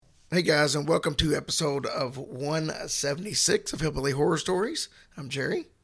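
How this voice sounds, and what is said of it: Hoarse, nearly lost voice. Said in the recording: “my voice is completely shot ... like you can hear, no voice at all”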